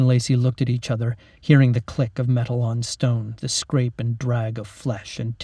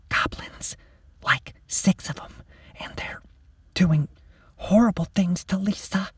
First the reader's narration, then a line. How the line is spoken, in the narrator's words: With a shudder, she whispered in Mac's ear